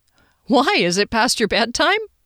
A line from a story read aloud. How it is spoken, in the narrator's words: I chuckled, but I was also a wee bit annoyed